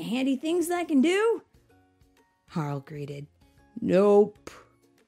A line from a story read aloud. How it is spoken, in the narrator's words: Bob said with a yawn